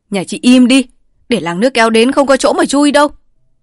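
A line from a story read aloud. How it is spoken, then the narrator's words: Shouting woman. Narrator (Vietnamese): Vợ Bài lại la lên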